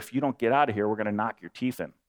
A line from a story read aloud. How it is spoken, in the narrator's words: one of them whispered in my dad's ear